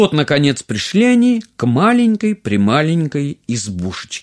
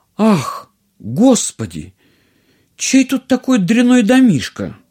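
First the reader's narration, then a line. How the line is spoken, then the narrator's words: Exclamation. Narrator (Russian): И принцесса воскликнула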